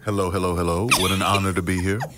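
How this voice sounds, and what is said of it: Smooth, sexy radio-announcer voice. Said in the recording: “sexy GQ, like, radio voice ... That's my radio voice.”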